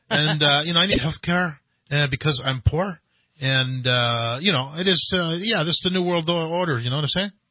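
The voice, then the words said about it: Put-on Mexican accent. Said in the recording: “you just have to have an accent, man”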